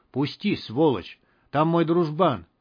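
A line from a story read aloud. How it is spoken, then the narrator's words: Furious whisper. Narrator (Russian): Кто-то с яростью в голосе шептал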